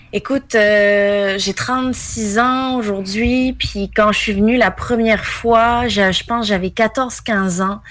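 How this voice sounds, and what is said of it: Québécois French accent. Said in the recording (French): “Je suis d'origine française, mais ça fait 18 ans que je suis au Québec. ... Et d'où l'accent québécois.”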